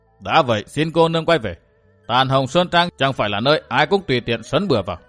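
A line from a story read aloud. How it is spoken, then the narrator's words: Cold man's voice. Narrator (Vietnamese): Đại hán mặt rỗ lạnh lùng nói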